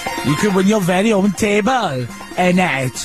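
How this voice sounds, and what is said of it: Put-on Welsh accent. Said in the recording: “That's my Welsh accent there.”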